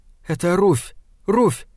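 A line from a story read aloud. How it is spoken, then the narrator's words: Frightened whisper. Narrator (Russian): сказала она перепуганным шепотом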